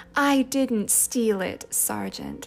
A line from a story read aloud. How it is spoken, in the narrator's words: said Sissy in her soft, appealing voice